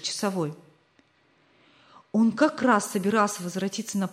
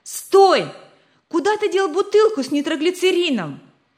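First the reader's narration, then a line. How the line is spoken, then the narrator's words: Shouting. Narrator (Russian): закричал Рик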